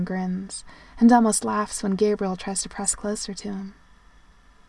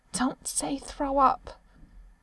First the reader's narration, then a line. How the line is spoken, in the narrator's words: Sam mutters